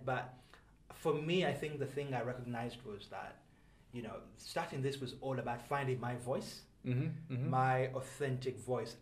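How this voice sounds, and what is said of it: Speaks with a slight accent. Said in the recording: “I've got a bit of an accent.”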